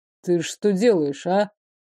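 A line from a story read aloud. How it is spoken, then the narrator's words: Warning tone. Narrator (Russian): столько предупреждений в голосе было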